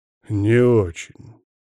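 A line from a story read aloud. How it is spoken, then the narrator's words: Through clenched teeth. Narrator (Russian): процедил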